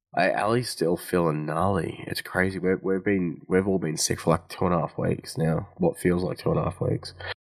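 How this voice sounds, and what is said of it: Sick-sounding voice. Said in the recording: “you can hear it in my voice. I'm still crook.”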